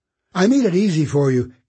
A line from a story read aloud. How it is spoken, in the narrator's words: Kate called, her tone bright and eager